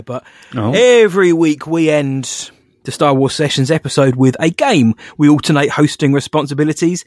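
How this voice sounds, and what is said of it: Voice failing after illness. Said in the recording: “I've had COVID. My voice is going a little bit there”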